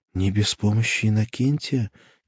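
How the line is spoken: Quiet. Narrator (Russian): тихо сказала она

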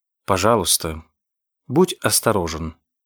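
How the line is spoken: Even, calm advice. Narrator (Russian): ровным, спокойным голосом посоветовала ему Элен Дюпрей

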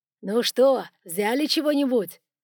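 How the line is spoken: Shouting. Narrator (Russian): кричал Тютину и Елецкому Квашнин

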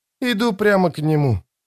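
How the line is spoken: Quiet reply. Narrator (Russian): тихо ответила Ноно

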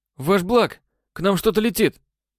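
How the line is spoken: Exclamation. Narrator (Russian): воскликнул оператор-наводчик

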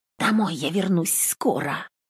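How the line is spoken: Sudden whispered confession. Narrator (Russian): неожиданно призналась Нютка шепотом

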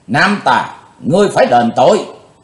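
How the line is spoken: Sudden shout. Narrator (Vietnamese): thình lình Trường Hận thư sinh quát

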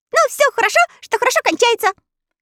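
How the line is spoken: Cheerful agreement. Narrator (Russian): весело согласился Татошка

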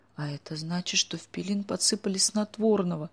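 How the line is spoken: Moaning. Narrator (Russian): застонала Оля

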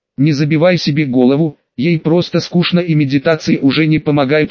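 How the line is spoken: Plain. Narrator (Russian): ответил я

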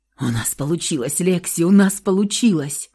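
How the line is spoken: Whisper. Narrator (Russian): шептал Михаил

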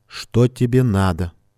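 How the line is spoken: Rude, harsh. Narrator (Russian): Грубо сказала

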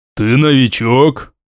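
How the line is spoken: Deep bass, big man. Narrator (Russian): уточнил искатель, обладавший басом, который гармонично соответствовал его довольно немаленьким габаритам

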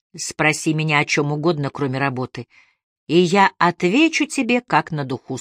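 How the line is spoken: Plain. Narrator (Russian): сказал он

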